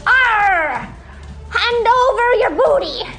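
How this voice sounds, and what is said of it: Pirate voice. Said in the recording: “you gotta speak pirate.”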